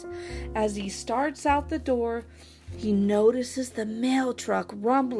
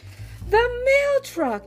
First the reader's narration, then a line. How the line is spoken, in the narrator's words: exclaimed